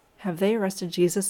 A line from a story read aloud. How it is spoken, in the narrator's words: asked